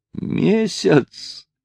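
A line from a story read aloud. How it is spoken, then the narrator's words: Exclaimed with silent laughter. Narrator (Russian): воскликнул Натти, смеясь своим беззвучным смехом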